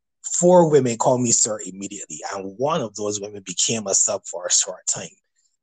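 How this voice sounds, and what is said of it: Barbadian accent. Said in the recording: “I'm from Barbados, so I've had people over the years tell me about my accent, tell me about how sexy my voice is”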